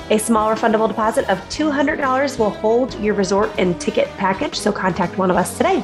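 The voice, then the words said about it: Slightly nasal, congested voice. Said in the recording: “the Missouri allergies are getting me this week, so if I sound a little nasally this time, I am.”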